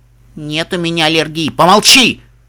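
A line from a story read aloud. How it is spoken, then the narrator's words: Irritated snap. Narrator (Russian): Раздраженно бросил капитан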